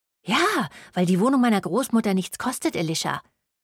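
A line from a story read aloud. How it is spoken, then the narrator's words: Hissing retort. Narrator (German): fauchte Serene zurück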